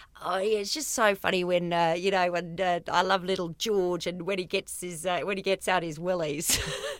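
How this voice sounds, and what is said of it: Deliberately bad New Zealand accent. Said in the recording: “he was from New Zealand ... I'm going to do a terrible accent here”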